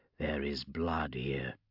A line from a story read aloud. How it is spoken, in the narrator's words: said Joseph quietly